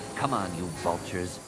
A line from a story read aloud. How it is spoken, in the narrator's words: Anakin muttered